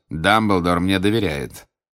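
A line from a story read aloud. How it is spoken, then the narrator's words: Objecting through teeth. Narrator (Russian): возразил Снег сквозь зубы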